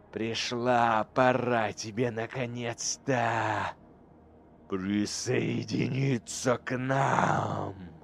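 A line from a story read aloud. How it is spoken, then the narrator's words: Demon's breathy exhale. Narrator (Russian): Выдохнул демон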